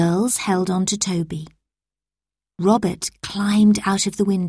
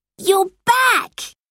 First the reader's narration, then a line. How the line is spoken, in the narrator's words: exclaimed